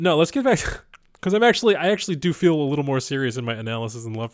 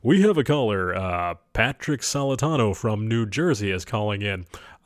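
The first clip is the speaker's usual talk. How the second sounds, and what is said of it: Late-night radio advice host voice. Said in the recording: “one of those late-night relationship advice radio things... that was just my impression”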